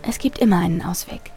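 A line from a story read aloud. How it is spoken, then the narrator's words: Quiet. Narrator (German): sagte sie leise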